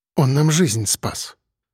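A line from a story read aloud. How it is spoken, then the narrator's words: Barely audible, choked voice. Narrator (Russian): сглотнув, еле слышно проговорила Искра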